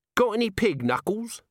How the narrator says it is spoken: said Nobby cheerfully

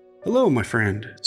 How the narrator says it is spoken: said Dr

